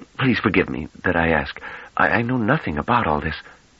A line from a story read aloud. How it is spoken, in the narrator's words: he added in a choked whisper